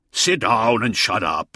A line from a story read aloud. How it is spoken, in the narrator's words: growled another wolf